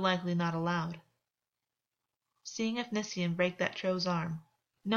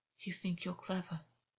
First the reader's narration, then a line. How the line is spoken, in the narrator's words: Augus whispered